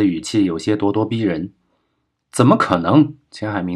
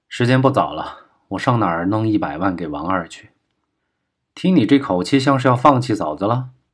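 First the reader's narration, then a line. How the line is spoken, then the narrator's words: Sighing. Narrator (Chinese): 钱海明叹口气道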